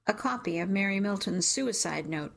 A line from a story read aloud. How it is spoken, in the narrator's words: Detective says